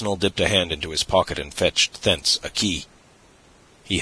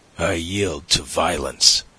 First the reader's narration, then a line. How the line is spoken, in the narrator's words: he said, showing his teeth like a snarling dog